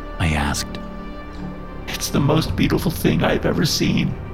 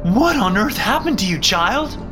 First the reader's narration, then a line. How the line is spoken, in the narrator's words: Mom screamed